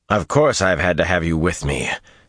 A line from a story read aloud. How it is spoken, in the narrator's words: Samael growled